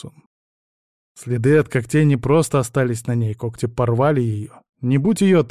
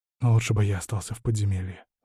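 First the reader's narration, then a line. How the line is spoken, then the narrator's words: Sorrowful whisper. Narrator (Russian): сокрушенно прошептал Вильд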